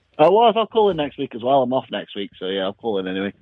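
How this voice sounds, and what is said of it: English accent. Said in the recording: “That accent is dope. ... everyone can hear my accent”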